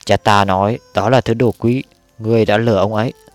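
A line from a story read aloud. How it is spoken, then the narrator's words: Stubborn loud child. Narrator (Vietnamese): nhóc Hầu Thắng vẫn chưa chịu bỏ qua, gân cổ to tiếng nói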